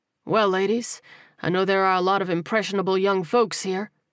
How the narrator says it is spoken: Terrell replied with a chuckle

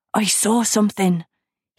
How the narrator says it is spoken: panted

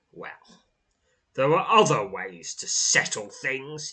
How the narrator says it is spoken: he snarls

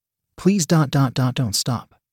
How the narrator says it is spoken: Katie murmured

